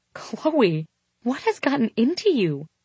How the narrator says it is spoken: Julia asked in an astonished tone

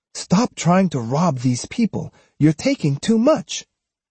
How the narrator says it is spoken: she called out to Takuang

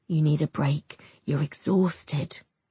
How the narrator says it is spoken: he says softly

